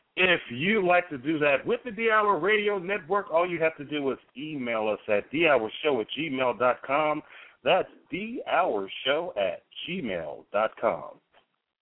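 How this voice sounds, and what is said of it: Smooth radio announcer voice. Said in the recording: “I like your radio announcer voice.”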